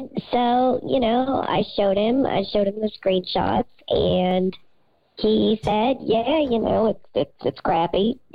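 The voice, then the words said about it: Hoarse voice. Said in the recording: “A lot of yelling, as you can tell. I'm a little hoarse today.”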